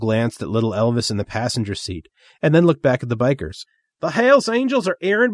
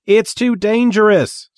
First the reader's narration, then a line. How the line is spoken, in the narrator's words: Sparkle Jones shouted back